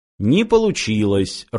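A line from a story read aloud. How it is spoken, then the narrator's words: Even, flat voice. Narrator (Russian): ровным голосом произнес Фыф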